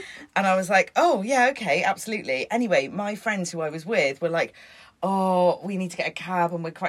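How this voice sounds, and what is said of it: Usual voice. Nothing is said of it.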